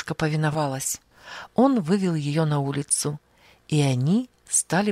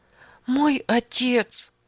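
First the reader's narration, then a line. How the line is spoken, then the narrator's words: Sobbing. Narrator (Russian): всхлипывала она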